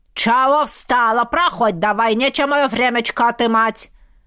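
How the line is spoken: Harsh bark. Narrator (Russian): рявкнула та

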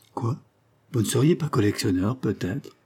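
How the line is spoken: Exclaiming. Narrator (French): s'exclama Lord Linchmer

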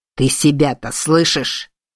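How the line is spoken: Growling. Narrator (Russian): прорычало божество бури

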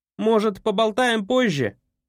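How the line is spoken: Shout hiding despair. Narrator (Russian): крикнул, пытаясь скрыть отчаяние в голосе

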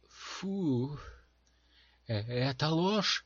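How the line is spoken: Exclaiming. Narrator (Russian): воскликнула Дженси

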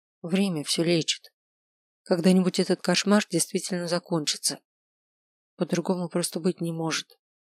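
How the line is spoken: Gentle. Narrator (Russian): мягко сказала

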